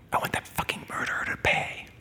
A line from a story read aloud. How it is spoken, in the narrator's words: she whispers in my ear